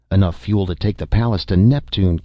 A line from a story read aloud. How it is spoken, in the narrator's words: Kent exclaimed